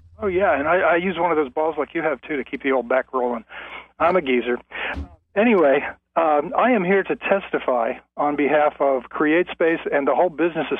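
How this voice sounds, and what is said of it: Out of breath, breathy speech. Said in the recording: “I've been doing stretches on the floor, so I'm out of breath”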